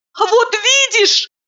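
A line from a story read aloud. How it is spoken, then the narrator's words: Shout. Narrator (Russian): закричала я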